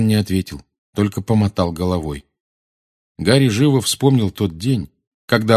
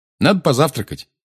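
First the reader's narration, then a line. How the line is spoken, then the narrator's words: Cheerful, brisk. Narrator (Russian): бодро сказал Гарри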